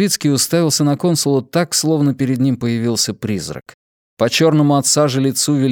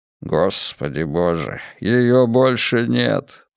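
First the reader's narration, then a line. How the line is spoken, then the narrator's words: Muttered. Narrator (Russian): пробормотал Левицкий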